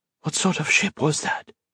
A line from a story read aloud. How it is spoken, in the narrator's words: whispered